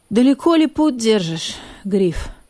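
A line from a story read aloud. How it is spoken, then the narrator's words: Tired question. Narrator (Russian): спросил он устало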